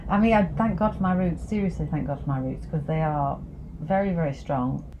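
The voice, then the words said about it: Northern English accent. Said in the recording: “being Northern ... Is that accent up north? Are you a Northerner? Is it Yorkshire? Is it Lancashire?”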